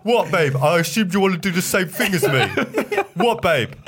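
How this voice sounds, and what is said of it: Exaggerated mock version of own voice. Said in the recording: “Your impression of yourself. ... the impression of like the bad version of myself.”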